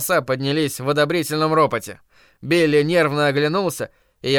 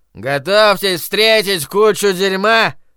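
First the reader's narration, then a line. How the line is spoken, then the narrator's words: Drunken mumble. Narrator (Russian): Пьяным голосом пробормотал Майрон Ляфлер из-за охладителя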